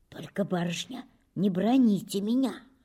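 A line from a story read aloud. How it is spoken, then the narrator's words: Whisper close to ear. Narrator (Russian): зашептала Дуняша, наклоняясь к самому уху Татьяны Аркадьевны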